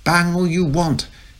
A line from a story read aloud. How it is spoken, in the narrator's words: shrieked the crazy Amy from her cupboard under the stairs